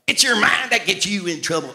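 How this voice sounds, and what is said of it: Southern preacher accent imitating Norval Hayes. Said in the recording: “I used to preach like Norval Hayes ... I had an accent, a southern accent, and I'm from Montreal.”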